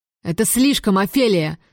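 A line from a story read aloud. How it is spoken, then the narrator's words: Very loud yelling. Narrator (Russian): заорал он, напугав разгуливающих по двору кур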